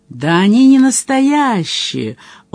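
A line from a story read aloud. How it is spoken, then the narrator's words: Joyful call. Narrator (Russian): радостно окликнул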